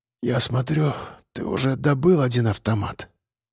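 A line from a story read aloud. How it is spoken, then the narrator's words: Muttering. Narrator (Russian): пробормотала она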